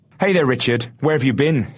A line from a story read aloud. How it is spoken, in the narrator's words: shouted the man